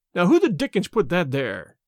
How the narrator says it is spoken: he cried angrily

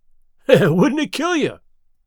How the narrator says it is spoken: He cried

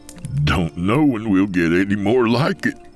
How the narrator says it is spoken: he said, doubling over, laughing

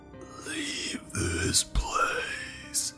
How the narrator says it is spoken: It said, in a demonic and ancient voice

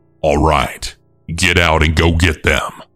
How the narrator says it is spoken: the driver then say in an angry tone to his passenger

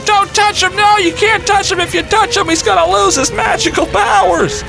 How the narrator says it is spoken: my nephew starts screaming at me

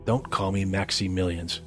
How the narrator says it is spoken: Max muttered, annoyed

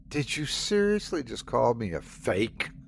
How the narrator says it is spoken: Sandy spat

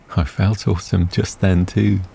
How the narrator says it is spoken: Tara laughed and replied

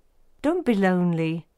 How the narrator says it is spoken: Suddenly, kindly, he said

